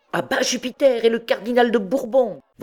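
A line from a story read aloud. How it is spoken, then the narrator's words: Clerks yelling together. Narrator (French): vociféraient Robin Poussepain et les autres clercs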